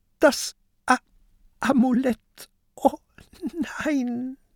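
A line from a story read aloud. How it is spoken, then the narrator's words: Sobbing. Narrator (German): schluchzt Peter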